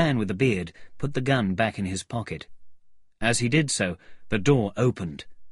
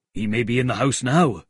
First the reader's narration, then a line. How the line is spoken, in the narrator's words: said the cabman